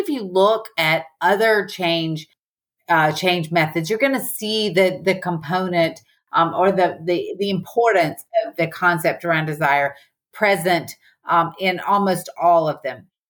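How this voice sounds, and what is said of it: Southern American accent. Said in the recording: “my Southern accent is just so obvious”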